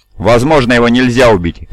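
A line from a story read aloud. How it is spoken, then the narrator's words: Barked. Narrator (Russian): рявкнул достопочтенный Эверсор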